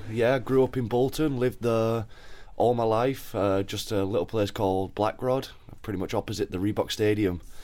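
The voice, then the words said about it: Local northern English accent. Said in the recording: “I am a semi-local lad, as you can probably tell with the accent.”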